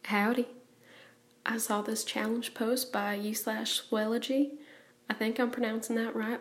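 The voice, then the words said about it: Exaggerated old-fashioned Southern US accent. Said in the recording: “I know I sound like a caricature of a southerner, but I am trying my darndest to sound like my best friend's 90-year-old great-granny”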